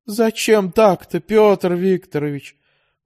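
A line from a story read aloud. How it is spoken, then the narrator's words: Sighing landlady. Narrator (Russian): вздохнула квартирная хозяйка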